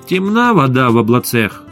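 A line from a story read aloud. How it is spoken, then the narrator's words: Angry pronouncement. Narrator (Russian): Аналитики зло изрекали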